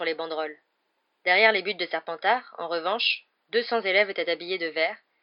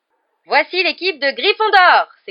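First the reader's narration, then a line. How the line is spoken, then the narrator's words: Announcer's exclamation. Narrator (French): s'écria Lee Jordan qui assurait le commentaire du match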